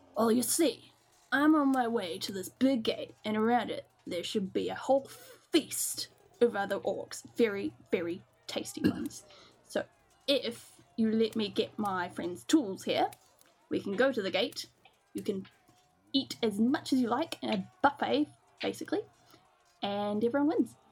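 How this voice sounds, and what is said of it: Put-on character accent. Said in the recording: “Love your accent just like melting.”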